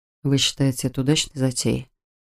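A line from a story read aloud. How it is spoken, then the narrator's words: Whispered question. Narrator (Russian): Шепотом спросил у Кэт Адам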